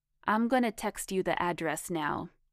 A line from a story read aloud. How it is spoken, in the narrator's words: said Frank